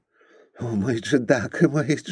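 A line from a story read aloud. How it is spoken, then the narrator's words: Whimpering. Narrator (Russian): захныкал он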